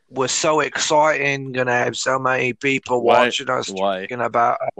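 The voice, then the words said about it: Bad put-on Australian or British accent. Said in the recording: “Why are you Australian? Why are you Australian? Why are you speaking Australian? Are you trying to be British and you're failing? You're Australian and you're failing. It's a bad.”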